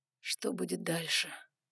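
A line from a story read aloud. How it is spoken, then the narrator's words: Quiet question. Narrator (Russian): тихо спросил Ноа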